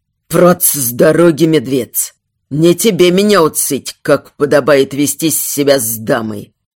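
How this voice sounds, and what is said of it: Angry hissing with foreign accent. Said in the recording (Russian): “Зашипел от злости, не справившись с акцентом.”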